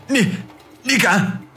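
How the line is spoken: Frightened, trembling voice. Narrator (Chinese): 方明面如白纸，声音发抖地说

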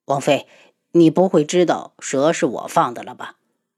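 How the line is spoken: Stunned, low voice. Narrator (Chinese): 七绝愣住，低声道

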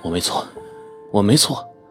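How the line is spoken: Panting, to herself. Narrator (Chinese): 蔡静喘气，告诉自己

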